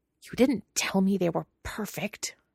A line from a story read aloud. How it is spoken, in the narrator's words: Wei Ying hisses at Lan Chan